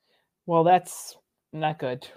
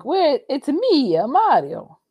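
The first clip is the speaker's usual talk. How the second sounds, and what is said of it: Italian-accented Mario character voice. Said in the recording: “where's the Italian accent”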